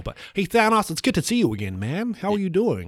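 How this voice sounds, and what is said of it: Attempted American accent. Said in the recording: “I don't really know how to do an American accent. I hope you don't mind me if I just give this a go.”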